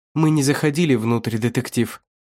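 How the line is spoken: Trembling voice. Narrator (Russian): дрожащим голосом продолжила

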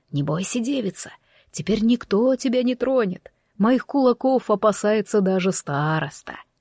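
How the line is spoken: Whispered. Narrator (Russian): Иван шепнул

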